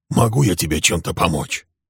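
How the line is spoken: Hoarse old man asking. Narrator (Russian): хрипло спросил старик

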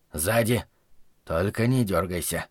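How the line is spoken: Quiet warning. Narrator (Russian): тихо предостерег Зарая

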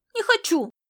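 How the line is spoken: Angry shout. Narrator (Russian): сердито выкрикнул Александр

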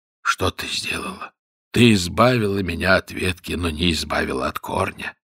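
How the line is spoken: Weak voice, king. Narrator (Russian): царь сказал ей слабым голосом

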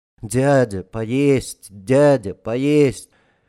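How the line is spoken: Dull monotone child. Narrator (Russian): Один мальчишка говорил уныло и монотонно

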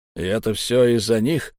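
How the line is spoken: Hoarse question. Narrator (Russian): сипло спросил человек

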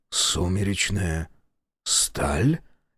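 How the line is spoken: Forced out. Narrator (Russian): Наконец выдавил он

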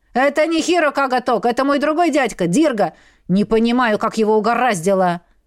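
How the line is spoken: Growling. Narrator (Russian): прорычал Вирга

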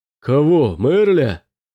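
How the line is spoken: Pirate shouting back. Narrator (Russian): крикнул в ответ пират

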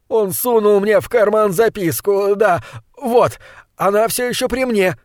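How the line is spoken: Exclaiming. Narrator (Russian): воскликнул Кендалл

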